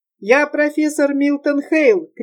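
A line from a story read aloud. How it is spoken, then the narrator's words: Shout. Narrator (Russian): крикнул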